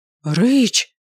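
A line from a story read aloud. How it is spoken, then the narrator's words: Hissing. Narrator (Russian): зашипела я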